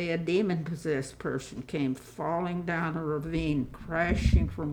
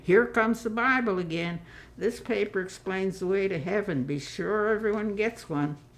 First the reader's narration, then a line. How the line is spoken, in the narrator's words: he exclaimed